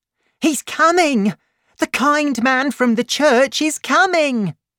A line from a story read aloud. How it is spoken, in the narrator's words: she cried